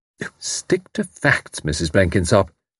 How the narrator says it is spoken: said Tuppence sternly

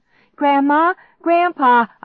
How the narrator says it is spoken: I cried out

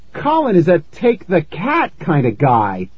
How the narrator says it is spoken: I cried

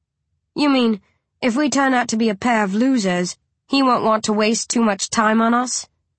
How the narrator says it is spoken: I grunt

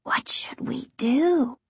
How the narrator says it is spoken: in a voice just above a whisper

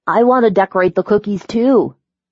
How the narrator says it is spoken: Dylan cried when he saw that Carrie had finished making the frosting

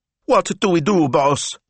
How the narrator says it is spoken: yelped Smilzo

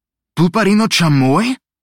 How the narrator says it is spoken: Marino gasped

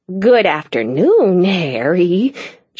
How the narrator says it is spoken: she purred

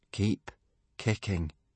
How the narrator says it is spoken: said Hiccup slowly

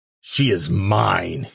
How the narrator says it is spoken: he growled

